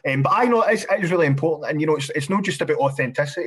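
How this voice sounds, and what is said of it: Glasgow Scottish accent. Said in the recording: “you've got a Glasgow accent, you're no gentrifying your accent”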